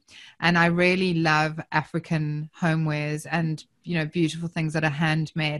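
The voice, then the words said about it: South African accent. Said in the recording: “I'm obviously from my accent, I'm originally South African”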